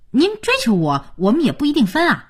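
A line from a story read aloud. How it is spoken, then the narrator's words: Groggy, worked-up. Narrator (Chinese): 佳期周期性的魂劲儿又上来了，也可能真是早上起猛了，加上刚才廖宇那声解叫的，他说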